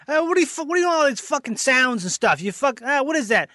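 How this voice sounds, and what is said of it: Brash East Coast New York comic voice. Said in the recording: “A New York comic... He's very super East Coast”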